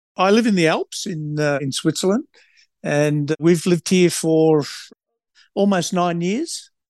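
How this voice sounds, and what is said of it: Australian accent. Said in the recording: “not from Australia, as your accent might suggest”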